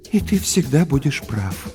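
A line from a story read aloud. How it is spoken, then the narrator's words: Sighing mother. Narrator (Russian): вздохнула мама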